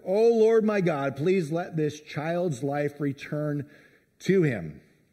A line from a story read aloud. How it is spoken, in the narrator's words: cried out to the Lord